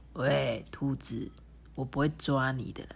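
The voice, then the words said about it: Very quiet small voice. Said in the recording (Chinese): “用很小的声音说”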